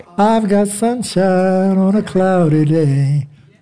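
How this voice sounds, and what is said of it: Hoarse singing voice. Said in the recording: “See, I'm hoarse. ... Yeah, I'm a little hoarse because we just came off of some one night.”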